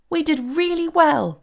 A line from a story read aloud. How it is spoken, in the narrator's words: cried the fairy in a pleased voice